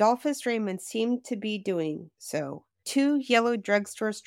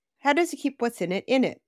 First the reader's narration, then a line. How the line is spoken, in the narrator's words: Jim giggled